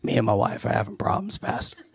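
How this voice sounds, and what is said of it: Raspy, worn-out voice. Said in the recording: “you got that raspy voice because you're worn out”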